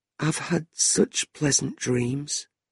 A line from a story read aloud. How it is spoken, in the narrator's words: said softly